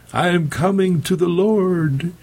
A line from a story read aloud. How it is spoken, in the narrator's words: Bobson cried out